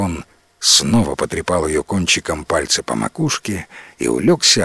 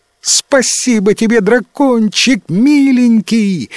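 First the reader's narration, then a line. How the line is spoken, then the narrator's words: Shrieking. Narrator (Russian): завизжала принцесса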